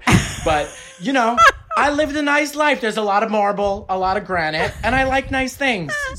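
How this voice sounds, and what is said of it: Regional accent, less pronounced. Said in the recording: “He has a much more pronounced accent than you do.”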